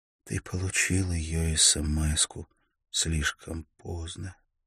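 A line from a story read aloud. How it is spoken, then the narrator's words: Strained, unrecognizable whisper. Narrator (Russian): Микаэль едва узнал ее голос, когда она прошептала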